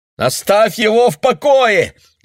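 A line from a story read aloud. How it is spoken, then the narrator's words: Shouted. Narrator (Russian): закричал Айк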